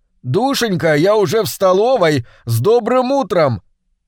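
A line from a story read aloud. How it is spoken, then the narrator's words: Shout. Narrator (Russian): я крикнул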